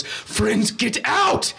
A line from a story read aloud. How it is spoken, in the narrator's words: Lander is screaming to Yenitazosis